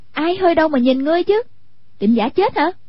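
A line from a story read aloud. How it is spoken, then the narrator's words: Sharp scolding shout. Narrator (Vietnamese): Hoàng Dung quát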